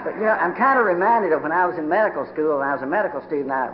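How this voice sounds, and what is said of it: Strong regional accent. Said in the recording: “if I ever came back into this part of the country, bring an interpreter ... I just love your accent”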